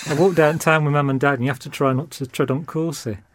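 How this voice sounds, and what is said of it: His own home regional accent. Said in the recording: “this is actually my proper accent from home ... doing a voice ... That's how I used to talk when I was growing up”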